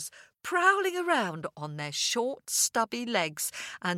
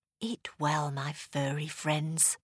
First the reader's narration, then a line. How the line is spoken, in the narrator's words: he whispered